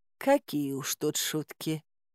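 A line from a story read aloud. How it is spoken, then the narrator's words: Affectionate purr. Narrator (Russian): ласково промурлыкала царица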